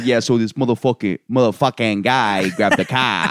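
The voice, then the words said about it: Imitated Boston accent. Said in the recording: “a white guy from Boston who thinks he's black but still has a Boston accent... you sound like you think you're black, but you're also from Boston”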